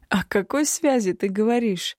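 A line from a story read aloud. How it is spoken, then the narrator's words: Mocking loud laughter. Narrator (Russian): Издевательски рассмеялся в голос повелитель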